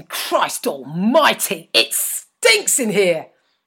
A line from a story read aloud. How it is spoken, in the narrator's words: my father shouting